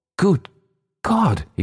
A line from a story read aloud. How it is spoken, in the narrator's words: he cried